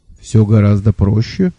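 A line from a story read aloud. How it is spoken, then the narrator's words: Calm. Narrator (Russian): спокойно сказал Лонли Локли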